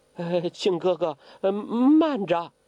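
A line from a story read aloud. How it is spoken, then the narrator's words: Trembling voice. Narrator (Chinese): 声音也发颤了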